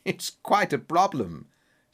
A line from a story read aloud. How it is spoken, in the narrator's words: said Holmes with a laugh